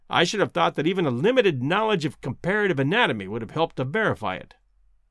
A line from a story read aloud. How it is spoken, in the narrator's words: said Summerlee, bitterly